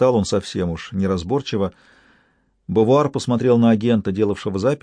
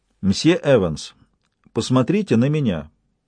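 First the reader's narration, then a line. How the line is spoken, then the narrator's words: Loud, clear voice. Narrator (Russian): произнесла Лакост громким, ясным голосом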